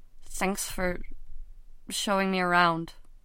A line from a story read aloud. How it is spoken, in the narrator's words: he said weakly